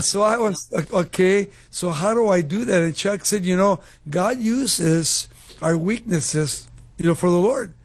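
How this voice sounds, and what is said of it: Foreign-accented English, Mexican Spanish. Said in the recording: “I didn't think I could be in the radio because of my accent ... I'm the only in my family with an accent. I came to America when I was 10 years old ... we lived in Mexico City ... I never got rid of my accent”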